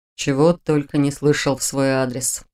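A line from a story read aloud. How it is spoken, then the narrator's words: Snort. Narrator (Russian): хмыкнул Шелтер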